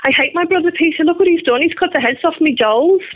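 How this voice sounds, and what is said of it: Liverpool accent. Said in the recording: “in my Liverpool accent”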